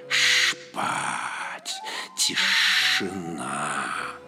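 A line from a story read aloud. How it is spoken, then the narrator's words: Hissing whisper. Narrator (Russian): мерзкое шипение, как будто змей шептал ему на ухо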